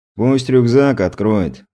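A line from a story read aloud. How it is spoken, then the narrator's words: Lazy advice. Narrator (Russian): лениво посоветовал крепыш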